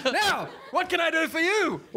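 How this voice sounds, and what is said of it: Changed, regal-sounding character voice. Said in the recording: “You will notice my voice has changed. ... a more regal approach”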